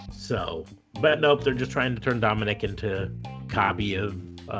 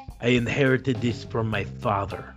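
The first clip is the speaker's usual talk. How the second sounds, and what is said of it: Bad fake Latin accent. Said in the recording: “a really bad Latin accent ... the fake accent”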